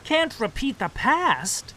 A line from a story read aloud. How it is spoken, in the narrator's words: He cried incredulously